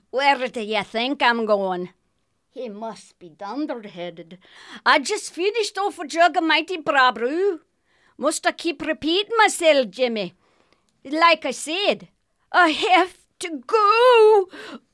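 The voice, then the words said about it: Scottish accent. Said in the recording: “her Scottish accent is so much fun to listen to ... lady with the Scottish accent”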